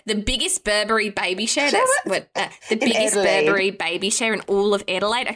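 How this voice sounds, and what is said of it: Clumsy put-on Australian accent. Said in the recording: “how can we do an Australian accent ... I'm gonna really, really ruin this ... I'm so sorry every time I do an Australian accent ... That was Irish.”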